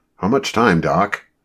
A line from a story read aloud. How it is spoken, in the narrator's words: John asked impatiently